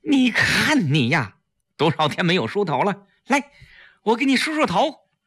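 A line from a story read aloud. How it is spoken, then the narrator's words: Sad, loud. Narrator (Chinese): 季嫣然难过地 大声说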